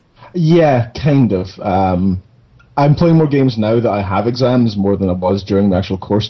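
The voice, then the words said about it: Scottish accent. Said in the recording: “girls love the Scottish accent.”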